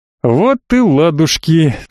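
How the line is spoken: Relieved exhale. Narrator (Russian): с облегчением выдохнул я

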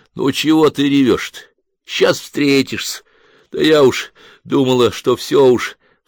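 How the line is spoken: Sobbing young woman. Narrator (Russian): всхлипала молодуха

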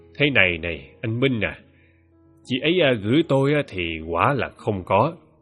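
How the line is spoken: Old man, wry smile. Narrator (Vietnamese): Ông cười nhạt bảo rằng

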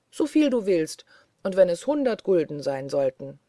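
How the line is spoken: Cheerful, pleased speech. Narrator (German): sprach der Tanzkaiser fröhlich über seinen Gewinn

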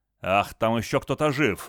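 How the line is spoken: Furious bark. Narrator (Russian): рявкнул в бешенстве Гарри

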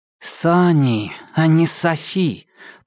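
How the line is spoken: Through gritted teeth. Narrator (Russian): процедила сквозь сжатые зубы Женька

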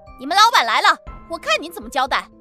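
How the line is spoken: Shrill shouting. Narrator (Chinese): 苏安娜立马跟见了靠山似的，尖声利气地喊着

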